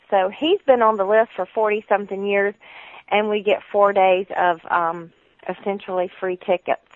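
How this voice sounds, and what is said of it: Southern US Georgia accent. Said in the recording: “you can tell by my accent, that we lived a considerable amount of time in Georgia”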